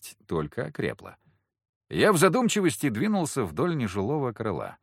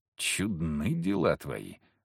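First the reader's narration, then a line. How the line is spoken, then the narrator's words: Muttering. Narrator (Russian): пробормотал я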